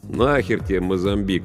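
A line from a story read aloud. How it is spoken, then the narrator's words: Lazy question. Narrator (Russian): лениво поинтересовался Йонс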